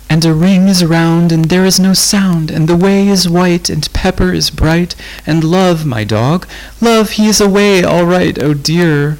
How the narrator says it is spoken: wailed Rose

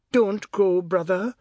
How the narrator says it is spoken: Si sobbed

